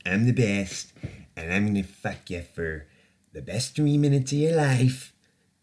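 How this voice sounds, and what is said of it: Poor impression of another person's voice. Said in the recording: “That sounds more like Stan from South Park... That doesn't even sound like him. That's the worst fucking impression ever.”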